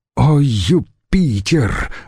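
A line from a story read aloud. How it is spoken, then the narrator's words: Veteran's sudden groan. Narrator (Russian): вдруг простонал ветеран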